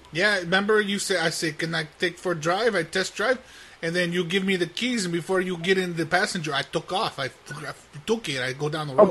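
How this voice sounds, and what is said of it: Put-on Hispanic accent. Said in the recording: “I'm Hispanic ... I have an accent ... I only spoke Spanish for you, so you think I'm Spanish”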